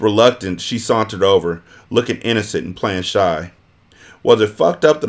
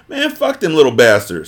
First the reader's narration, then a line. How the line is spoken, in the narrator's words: Supreme dismissed playfully